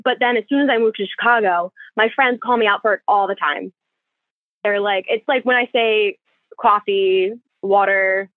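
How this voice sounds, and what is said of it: Slight South Jersey accent. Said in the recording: “South Jersey accent ... you both have a little bit more of a Jersey accent than even I have”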